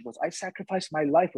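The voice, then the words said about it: Imitated mother's foreign accent. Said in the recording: “with her accent.”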